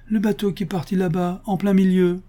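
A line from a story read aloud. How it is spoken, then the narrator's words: Exclaimed. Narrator (French): s'écrie-t-elle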